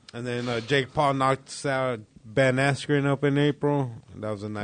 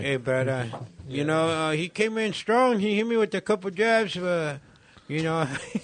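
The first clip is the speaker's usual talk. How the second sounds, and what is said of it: Put-on Mexican accent, pinched mouth. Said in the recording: “just goes into a Mexican accent ... Get a small face ... Sour lemon face ... Little crushed face”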